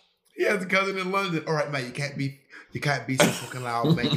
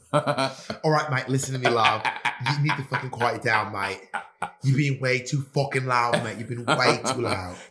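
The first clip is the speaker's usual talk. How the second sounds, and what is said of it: Put-on British accent. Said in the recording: “your British accent ... You do this like British accent face every time you do British accents”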